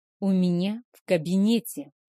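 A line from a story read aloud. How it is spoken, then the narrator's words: Muttered through teeth. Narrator (Russian): процедил он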